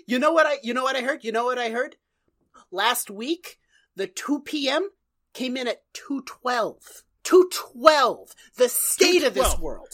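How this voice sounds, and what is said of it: Put-on New York accent. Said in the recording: “Why do our guys have New York accents?”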